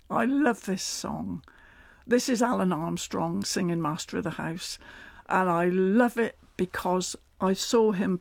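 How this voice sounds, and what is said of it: Strong rural regional English accent. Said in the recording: “the accent has been a very double-edged sword for me... Swede basher, carrot cruncher and village idiot, really, if you've got an accent like mine... the accent I was born with”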